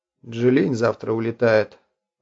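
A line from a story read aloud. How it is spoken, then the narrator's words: Even voice. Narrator (Russian): ровным голосом сказал Стайрон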